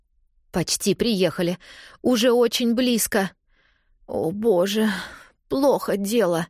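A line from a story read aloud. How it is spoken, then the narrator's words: Hoarse. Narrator (Russian): хрипит она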